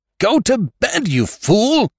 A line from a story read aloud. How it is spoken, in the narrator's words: shouted, rising on one elbow under the blanket